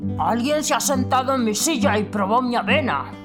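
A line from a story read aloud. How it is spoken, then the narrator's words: Mother bear, half-angry voice. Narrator (Spanish): dijo mamá oso con una voz medio enojada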